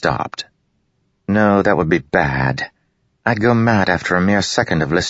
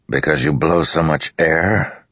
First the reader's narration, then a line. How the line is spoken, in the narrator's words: Dalinar growled